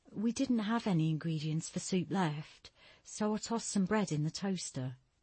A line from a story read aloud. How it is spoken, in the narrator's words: Stella said softly